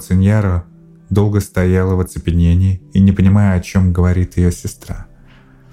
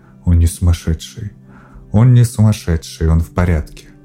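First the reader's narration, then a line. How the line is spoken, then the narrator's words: Quiet. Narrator (Russian): Она тихо сказала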